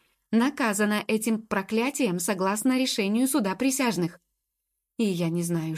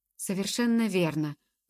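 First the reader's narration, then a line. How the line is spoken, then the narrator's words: Tired agreement. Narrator (Russian): устало согласился Мимулус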